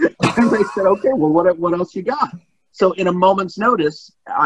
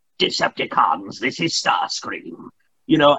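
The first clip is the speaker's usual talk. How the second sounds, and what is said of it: British-accented villain character voice. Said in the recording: “how about just a British accent? ... you want Starscream to sound like this”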